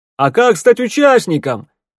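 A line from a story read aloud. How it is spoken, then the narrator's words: Shout from a crowd. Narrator (Russian): крикнул кто-то из толпы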